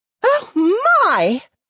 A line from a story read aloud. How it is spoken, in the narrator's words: she squealed